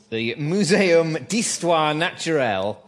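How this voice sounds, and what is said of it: Bad put-on French accent. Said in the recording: “That's a very bad French accent.”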